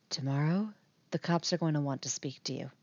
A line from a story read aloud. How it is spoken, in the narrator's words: Nancy whispers